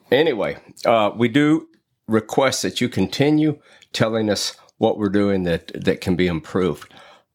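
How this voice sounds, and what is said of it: Southern redneck accent. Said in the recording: “call me a redneck and accuse me of having an accent ... You have an accent.”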